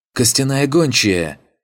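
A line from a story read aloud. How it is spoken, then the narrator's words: Exclamation. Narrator (Russian): воскликнул опомнившийся первым Пончик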